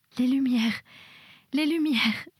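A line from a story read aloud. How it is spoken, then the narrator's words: Sobbing. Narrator (French): sanglotait Mabel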